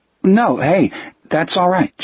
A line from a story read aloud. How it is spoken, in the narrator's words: Jack said nervously